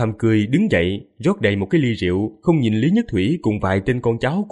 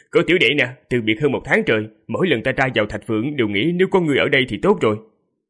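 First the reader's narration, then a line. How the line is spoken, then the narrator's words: Loud laughing. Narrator (Vietnamese): Đại hạ hoàng tử ... cười to rồi nói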